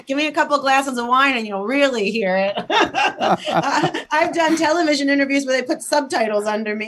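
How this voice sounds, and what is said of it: Italian-American New Jersey accent. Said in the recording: “I am 100% Italian from Trenton, New Jersey. ... I can hear that accent. ... Yes, you can hear my accent.”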